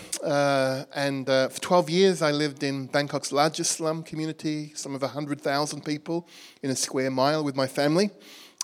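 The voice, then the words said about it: Birmingham accent. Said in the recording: “You can probably tell from my accent, I'm from Birmingham. Actually, originally from Australia.”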